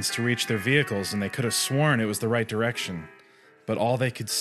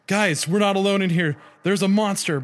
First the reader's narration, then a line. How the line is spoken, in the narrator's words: Brian cried